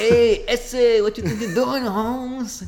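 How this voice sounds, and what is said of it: Exaggerated Speedy Gonzalez Spanish accent. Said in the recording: “the most fun Spanish accent to do is, hey, Speedy Gonzalez ... It's terrible. It's not accurate.”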